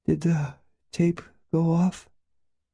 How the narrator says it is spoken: She asked drowsily

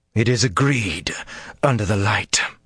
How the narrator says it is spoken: she growled

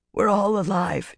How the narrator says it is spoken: she managed in a husky voice

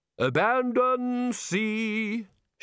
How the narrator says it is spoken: shouted the bursar cheerfully

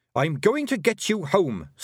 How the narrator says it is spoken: snapped Tiffany

